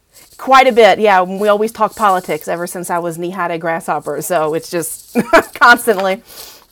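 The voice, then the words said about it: Regional American accent. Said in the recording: “I love your accent”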